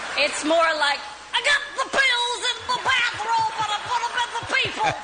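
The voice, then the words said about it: Bill Cosby impression. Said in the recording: “I knew they were both going to do an impression. ... I never would have guessed them doing a Bill Cosby impression.”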